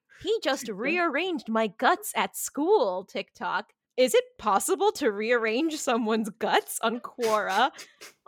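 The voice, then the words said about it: Imitates TikTok text-to-speech lady voice. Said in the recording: “doing the TikTok lady voice”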